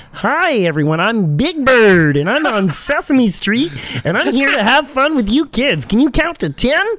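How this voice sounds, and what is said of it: Big Bird puppet voice, Kermit-like. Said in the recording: “Here's my Big Bird impression. ... That's Kermit. ... Big Bird has Kermit vibes ... It blended into Kermit”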